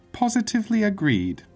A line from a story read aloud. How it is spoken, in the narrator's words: the woman exclaimed